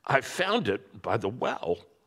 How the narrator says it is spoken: said, in rather a choking kind of voice

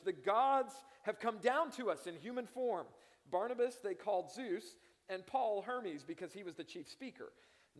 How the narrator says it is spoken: the crowd shouted, saying in the Lycaonian language

